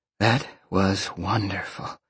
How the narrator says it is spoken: Roxy purred

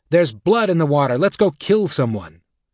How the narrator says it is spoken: Mack ... would yell

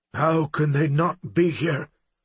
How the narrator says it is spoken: Grey Wolf growled

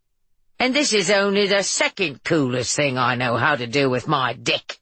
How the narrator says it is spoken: Allie announced in her intentionally atrocious English accent

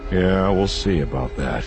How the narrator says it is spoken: Han muttered

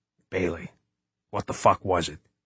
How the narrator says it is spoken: He whispered

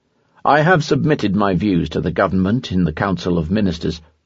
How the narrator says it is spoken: Poincaré replied dryly

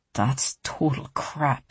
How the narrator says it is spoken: he said, his voice low but furious

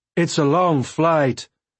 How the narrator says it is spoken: I shouted

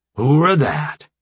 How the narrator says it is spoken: Jones growled

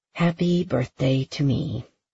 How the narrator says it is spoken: Harper murmured

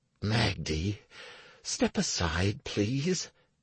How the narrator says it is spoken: Anastaria growled in a whisper

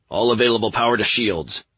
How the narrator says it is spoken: Nathan barked

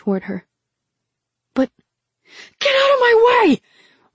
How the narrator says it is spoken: Rin screamed, She didn't have time for a guardian

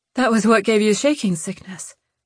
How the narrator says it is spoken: Lou panted

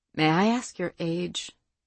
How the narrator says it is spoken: Faith asked calmly

